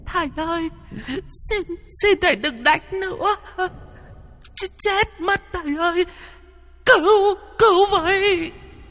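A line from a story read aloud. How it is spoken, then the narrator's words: Crying pleading women and children. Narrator (Vietnamese): Có tiếng trẻ con, tiếng đàn bà khóc lóc van xin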